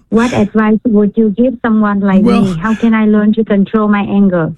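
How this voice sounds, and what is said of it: Vietnamese accent. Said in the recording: “Are you Vietnamese? ... You can tell by my accent.”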